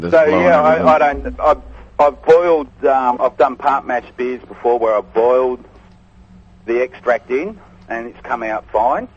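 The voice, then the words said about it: A noticeable regional accent. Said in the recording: “That's the accent.”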